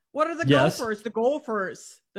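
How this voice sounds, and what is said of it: Exaggerated Minnesota accent. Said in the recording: “The Minnesota accent. ... Scandinavian heritage with the heritage”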